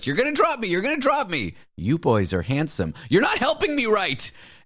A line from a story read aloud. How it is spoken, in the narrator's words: she's just screaming at us